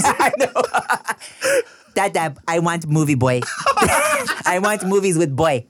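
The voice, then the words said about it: Childish baby voice. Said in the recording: “I'm doing the baby voice.”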